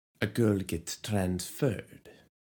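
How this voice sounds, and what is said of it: Bad put-on accent. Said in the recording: “That made me feel like I was in Game of Thrones for a second... that's another bad accent.”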